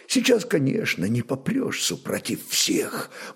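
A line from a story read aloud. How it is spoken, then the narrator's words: Quiet secretive speech. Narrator (Russian): молвил он тихо, оглянувшись, будто хотел удостовериться, что никто посторонний его слов не слышит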